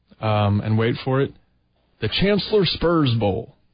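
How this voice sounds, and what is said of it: Failed attempt at Southern accent. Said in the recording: “I apparently can't do a Southern accent.”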